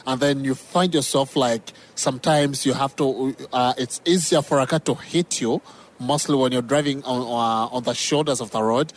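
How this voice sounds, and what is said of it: Speaks English with an accent. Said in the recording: “it's the accent. It's the accent.”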